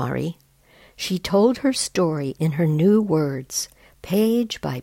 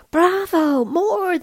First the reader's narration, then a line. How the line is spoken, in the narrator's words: they shouted